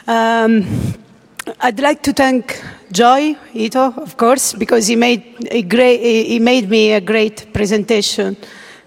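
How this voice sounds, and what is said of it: Italian-accented English. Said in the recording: “my bad English and my even worse Italian accent”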